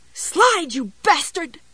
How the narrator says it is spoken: screamed at the glass in a high, breathy voice

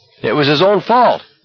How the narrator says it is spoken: Barkovich yelled

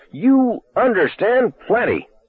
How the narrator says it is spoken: Junkins roared at him

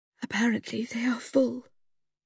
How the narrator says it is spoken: said hoarsely

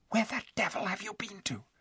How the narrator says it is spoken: said Eustace in a furious whisper, for he had been very frightened

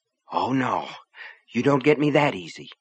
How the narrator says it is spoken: she said under her breath

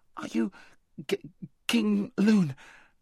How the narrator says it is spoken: gasped Shasta

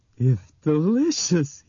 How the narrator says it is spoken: he said in a muffled voice, spraying crumbs as he spoke

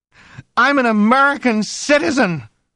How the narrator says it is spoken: she cried suddenly

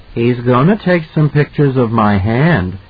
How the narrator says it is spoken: Danny said gravely

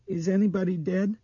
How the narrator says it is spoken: Dinah asked nervously

